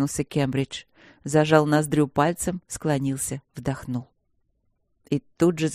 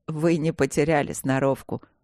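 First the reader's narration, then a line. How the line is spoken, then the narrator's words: Laughing. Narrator (Russian): засмеялся владелец клуба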